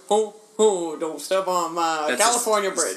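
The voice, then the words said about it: Imitates a singer's voice. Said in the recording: “impression of a singer ... You're doing an Elvis.”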